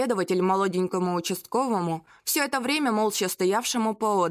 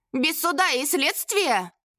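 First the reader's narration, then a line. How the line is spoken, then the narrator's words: Yelling in unison. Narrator (Russian): завопили в один голос Мастерков и Заплечный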